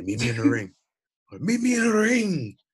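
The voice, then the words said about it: Attempted Irish accent, unconvincing. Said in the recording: “I tried to do an Irish accent. I couldn't do it.”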